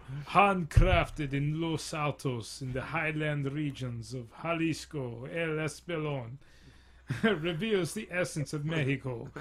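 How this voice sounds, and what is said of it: Attempted Spanish accent, sounds Russian. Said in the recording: “in my best Spanish accent ... I'm sounding more Russian than anything ... Yeah, in yeah, Russian or like”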